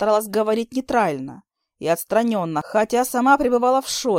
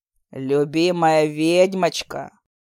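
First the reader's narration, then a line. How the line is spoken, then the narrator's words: Growling husband. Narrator (Russian): прорычал муженек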